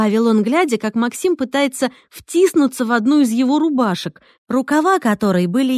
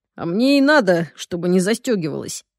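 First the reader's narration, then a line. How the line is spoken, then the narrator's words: Breathless mutter. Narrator (Russian): Буркнул, тяжело переводя дыхание, Максим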